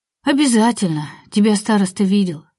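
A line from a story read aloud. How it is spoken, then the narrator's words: Sigh, woman. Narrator (Russian): вздохнула Антонина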